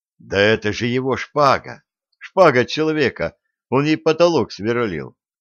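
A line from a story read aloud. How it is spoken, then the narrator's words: Plain. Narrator (Russian): сказал Дмитрий Дмитриевич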